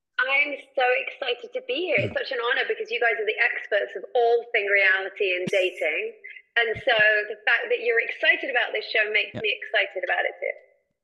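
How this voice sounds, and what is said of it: English accent. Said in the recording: “by your accent, you're obviously from Iowa ... I'm from England originally”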